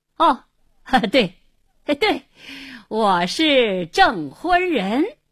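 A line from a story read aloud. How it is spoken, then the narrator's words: Forced hearty laughter. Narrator (Chinese): 胡经理故意哈哈大笑，连声说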